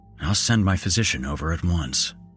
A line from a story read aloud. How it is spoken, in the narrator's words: I muttered to myself